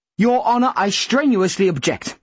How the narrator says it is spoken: Killarney began furiously

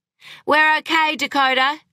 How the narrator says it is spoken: she called out

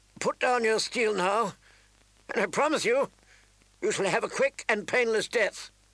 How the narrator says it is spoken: Rob called out

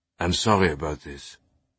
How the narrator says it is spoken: he said

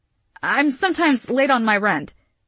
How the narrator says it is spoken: Gia blurted

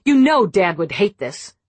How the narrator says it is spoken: Nina said sharply

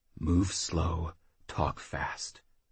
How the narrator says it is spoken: Jackal whispered to himself

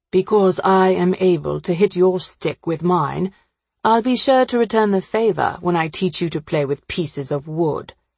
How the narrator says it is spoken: Stephen said dryly

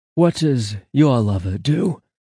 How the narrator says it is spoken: Angel gasped

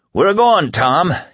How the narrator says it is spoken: he bellowed

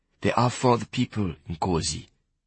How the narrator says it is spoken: Gideon said softly

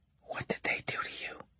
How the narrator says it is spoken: she whispered

